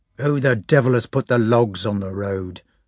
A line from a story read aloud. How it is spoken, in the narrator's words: snarled he